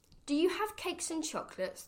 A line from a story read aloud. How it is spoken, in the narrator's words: the highway robber cried